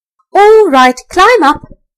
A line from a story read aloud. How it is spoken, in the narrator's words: called out the rat